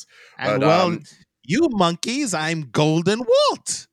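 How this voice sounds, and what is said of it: Bad imitation of Frieza's voice. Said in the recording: “That was a very bad impression of Frieza”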